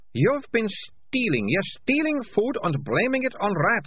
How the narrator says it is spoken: snapped Melissa

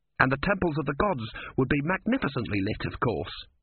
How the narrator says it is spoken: said Urn quickly

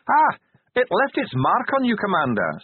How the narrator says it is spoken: said the Grag cheerfully

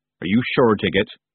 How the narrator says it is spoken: he asked

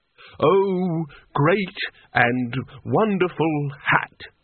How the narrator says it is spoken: he said pompously

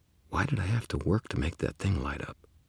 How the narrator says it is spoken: muttered to myself

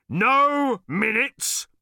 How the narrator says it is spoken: boomed the bodyguard

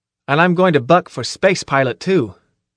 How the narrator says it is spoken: I added firmly

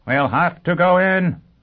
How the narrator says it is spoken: shouted

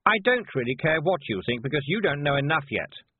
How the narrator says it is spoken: said Anagramma sharply

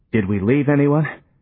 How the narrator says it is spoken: panted Johnny

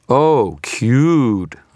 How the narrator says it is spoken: said, my voice dripping with scorn

